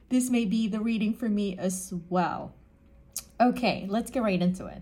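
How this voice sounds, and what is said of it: Emotional, choked-up voice. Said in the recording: “I'm getting emotional ... I'm trying to catch myself here. That kind of took me off.”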